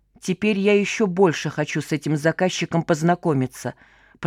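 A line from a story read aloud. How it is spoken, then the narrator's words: Muttered. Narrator (Russian): пробормотал Вадька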